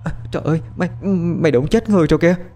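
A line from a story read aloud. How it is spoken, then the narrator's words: Weak trembling voice. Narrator (Vietnamese): Môi Trinh run run phát ra âm thanh yếu ớt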